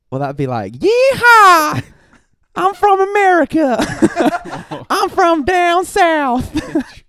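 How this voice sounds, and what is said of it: High-pitched put-on American southern accent. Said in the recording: “can you do an American accent? ... Why is the octave go so high?”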